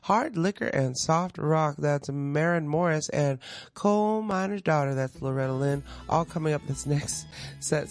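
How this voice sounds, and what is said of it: Slight country twang. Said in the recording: “Sorry, I got a little twang.”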